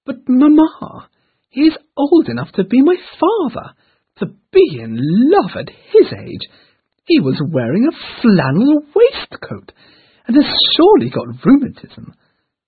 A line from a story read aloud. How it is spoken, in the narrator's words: When the Miss Dashwoods talked about it with their mother when finally back home, exclaimed